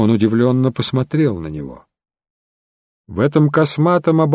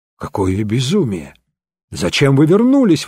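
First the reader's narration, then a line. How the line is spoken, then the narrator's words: Exclaimed. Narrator (Russian): воскликнул он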